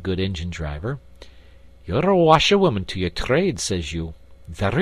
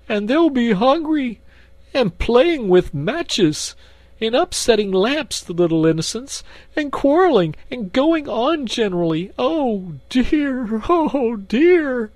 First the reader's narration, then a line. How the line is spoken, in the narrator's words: sobbed Toad